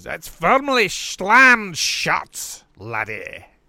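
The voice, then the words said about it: Imitates another person's voice. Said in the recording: “it probably didn't sound like that ... That's actually a very good impression”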